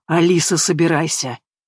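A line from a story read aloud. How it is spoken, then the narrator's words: Hoarse, coughing, out of breath. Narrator (Russian): хрипло проговорил, закашлявшись из-за сбитого дыхания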